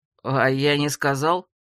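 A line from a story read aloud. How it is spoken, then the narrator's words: Surprised. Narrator (Russian): удивился он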